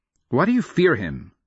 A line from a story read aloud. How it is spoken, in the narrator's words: She snaps in return